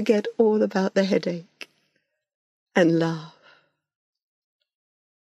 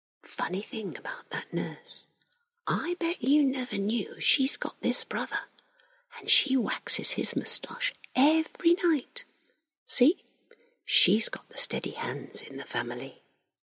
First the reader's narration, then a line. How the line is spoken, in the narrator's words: Larry whispers